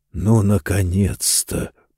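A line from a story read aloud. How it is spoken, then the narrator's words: Muttering voice. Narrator (Russian): пробормотал голос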